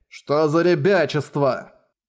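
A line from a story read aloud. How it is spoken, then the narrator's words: Irritated retort. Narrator (Russian): раздраженно бросил Шуйму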